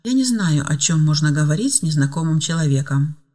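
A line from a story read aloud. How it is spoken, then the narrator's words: Calm honest admission. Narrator (Russian): спокойно и честно призналась Ева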